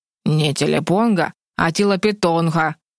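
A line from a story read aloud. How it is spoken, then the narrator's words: Cold correction, owl. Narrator (Russian): холодно поправил хозяина филин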